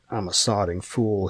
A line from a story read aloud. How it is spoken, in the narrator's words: he muttered